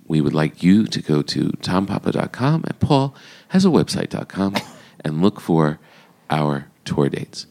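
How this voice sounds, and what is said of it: Nasal NPR radio-announcer voice. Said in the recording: “I'm using my NPR voice through my nasal.”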